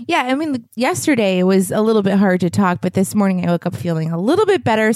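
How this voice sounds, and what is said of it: Hoarse, sore-throated voice from cold. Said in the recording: “your throat has been super sore. You've been fighting this cold ... my voice sounds a little funky, it's just because of this cold”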